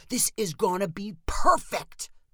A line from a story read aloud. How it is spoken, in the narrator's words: cried Spencer